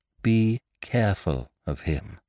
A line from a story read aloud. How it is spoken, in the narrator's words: said Polly slowly